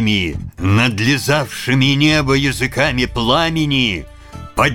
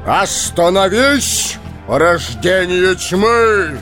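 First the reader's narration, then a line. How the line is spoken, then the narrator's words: Resonant voice. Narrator (Russian): звучным голосом произнес Гэндальф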